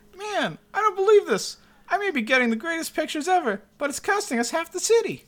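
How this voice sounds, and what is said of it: Jimmy Olsen impression. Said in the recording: “your Jimmy Olsen impersonation”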